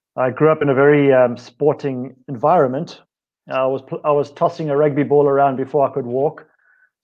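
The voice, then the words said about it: South African accent. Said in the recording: “my accent is South African”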